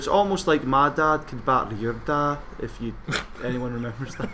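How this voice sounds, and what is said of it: Put-on Scottish accent. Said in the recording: “you were doing an accent ... It's a Scottish accent.”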